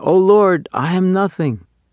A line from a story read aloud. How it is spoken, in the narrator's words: The cantor, deeply moved in his heart, exclaimed